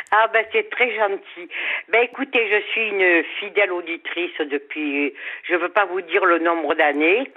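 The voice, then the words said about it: Slight sunny southern French accent. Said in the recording (French): “votre petit accent, mais du soleil dans ce studio”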